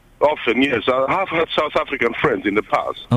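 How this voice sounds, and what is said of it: South African-sounding accent. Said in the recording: “where do you think I come from? They say, South Africa ... Find yourself slipping into South African then? ... So I speak like that.”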